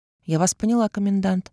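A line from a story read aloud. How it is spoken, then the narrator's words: Dry. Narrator (Russian): ответила сухо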